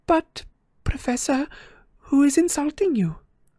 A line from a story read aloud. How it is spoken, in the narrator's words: asked Parvati timidly